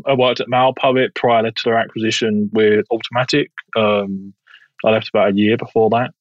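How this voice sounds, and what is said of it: Southeast London English accent. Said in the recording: “I originally come from Southeast London. So if you get a weird accent, that's because I'm not American.”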